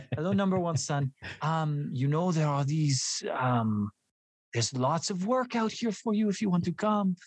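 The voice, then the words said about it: Imitated Hungarian accent. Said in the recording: “she's Hungarian. So she has the world's greatest accent.”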